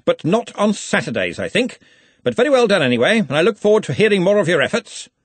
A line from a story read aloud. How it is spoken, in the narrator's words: he snapped